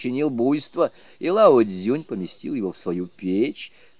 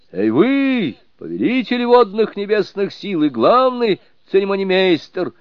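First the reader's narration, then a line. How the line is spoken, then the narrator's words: Loud group shout. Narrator (Russian): громко закричали они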